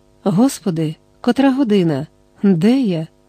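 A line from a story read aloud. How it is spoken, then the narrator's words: Exclaiming. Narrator (Ukrainian): вигукнула вона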